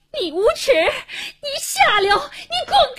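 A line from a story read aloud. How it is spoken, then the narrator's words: Frantic terrified cursing. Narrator (Chinese): 一声狂喊，黄英一脸恐怖地，气急败坏地骂着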